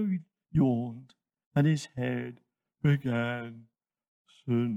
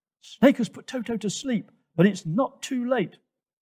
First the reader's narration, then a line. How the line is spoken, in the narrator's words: Twigger yelled